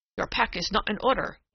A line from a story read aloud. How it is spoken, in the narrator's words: he said sharply